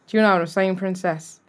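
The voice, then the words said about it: Put-on Irish accent. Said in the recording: “I can do a really good Irish accent ... my Irish accent's really fucking good”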